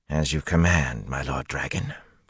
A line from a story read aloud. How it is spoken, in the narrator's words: Gedwin muttered